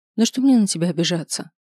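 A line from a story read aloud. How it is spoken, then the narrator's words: Sigh. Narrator (Russian): вздохнула я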